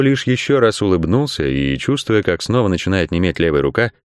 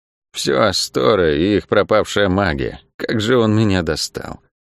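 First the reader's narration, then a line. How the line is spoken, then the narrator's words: Mutter while walking. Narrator (Russian): пробормотала Лавиани на ходу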